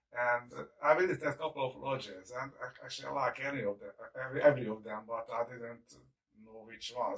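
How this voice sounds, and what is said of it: Hungarian-accented English. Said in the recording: “this is not a Windsor, Ontario accent that ... got ... I'm Hungarian ... I can't shake it off the accent”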